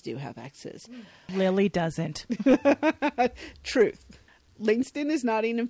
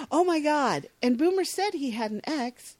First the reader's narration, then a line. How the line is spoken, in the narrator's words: exclaims